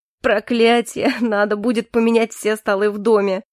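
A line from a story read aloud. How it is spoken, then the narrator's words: Laughing. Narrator (Russian): сквозь смех произнес Калипсо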